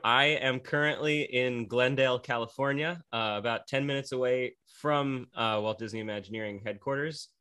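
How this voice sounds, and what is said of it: American Pennsylvania accent. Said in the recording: “my accent is originally from Scranton, Pennsylvania ... like the American office”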